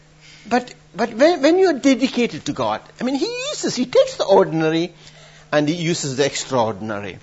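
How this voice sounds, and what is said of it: Accented English, unclear diction. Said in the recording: “My diction is terrible. My accent is stupid.”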